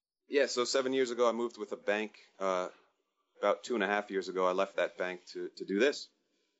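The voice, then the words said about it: American New Jersey accent. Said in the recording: “judging by your accent, aren't local ... I'm from New Jersey.”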